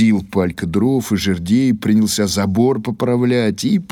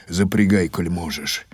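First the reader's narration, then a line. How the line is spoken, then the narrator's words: Grumbled. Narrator (Russian): буркнул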